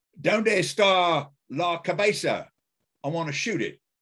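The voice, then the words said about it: Sniper character voice, Australian-accented Spanish. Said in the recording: “speak a Sniper line in some other language with an Australian accent? ... if Sniper tried to speak Spanish, it'd probably sound like this.”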